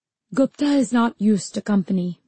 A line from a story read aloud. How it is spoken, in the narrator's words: he said